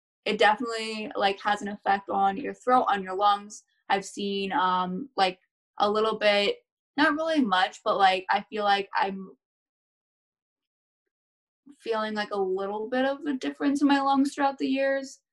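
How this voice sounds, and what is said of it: Slightly raspy voice. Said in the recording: “you can hear my voice right now, like I'm a little bit raspy.”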